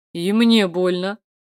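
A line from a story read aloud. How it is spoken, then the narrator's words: Deep bass voice. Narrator (Russian): Пробасил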